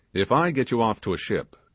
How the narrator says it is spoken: said he

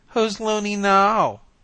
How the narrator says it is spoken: she jeered

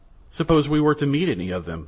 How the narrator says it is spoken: said Morisot

